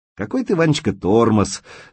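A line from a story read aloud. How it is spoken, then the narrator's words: Laughing. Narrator (Russian): засмеялась Ирка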